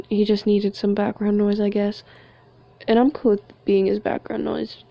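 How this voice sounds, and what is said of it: Non-American accent. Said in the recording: “I'm in America, and I have an accent, as you can tell”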